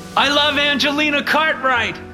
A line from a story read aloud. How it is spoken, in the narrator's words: Mitchell shouted again